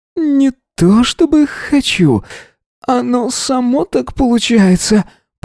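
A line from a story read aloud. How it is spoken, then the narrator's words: Groaned. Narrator (Russian): простонал он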